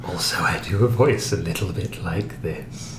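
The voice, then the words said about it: Creepy, raspy Crypt Keeper-like voice. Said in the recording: “doing the voice ... it sounds like the Crypt Keeper trying to”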